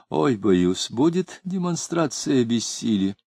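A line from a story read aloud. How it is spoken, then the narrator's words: Added with a sigh. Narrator (Russian): добавил, вздохнув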